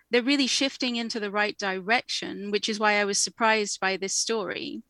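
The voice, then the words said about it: English accent. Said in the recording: “as you can probably tell from my accent, I am from the UK, I am from England”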